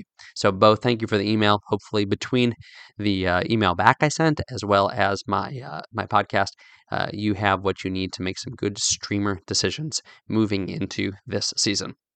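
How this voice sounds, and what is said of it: Strained, failing voice. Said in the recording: “you can probably tell my voice is dying. Tis the season, allergy season.”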